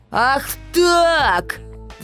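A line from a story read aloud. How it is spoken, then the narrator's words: Roar. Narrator (Russian): взревел Баламут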